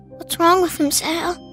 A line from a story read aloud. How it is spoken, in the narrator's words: Pete whispered